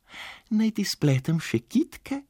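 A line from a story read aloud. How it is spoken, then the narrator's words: Kind suggestion. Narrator (Slovenian): je prijazno predlagala Staša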